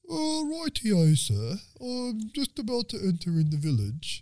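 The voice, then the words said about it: Put-on silly character accent. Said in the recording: “If Great Danes had an accent, this is what they would sound like.”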